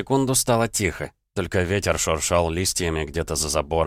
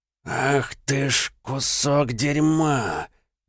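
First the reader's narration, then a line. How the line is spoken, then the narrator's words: Slow, through gritted teeth. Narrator (Russian): медленно процедил Бурый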